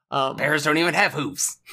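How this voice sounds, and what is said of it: Failed cartoon character voice impression. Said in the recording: “I don't know what accent I did there, but it definitely was not Strong Bad.”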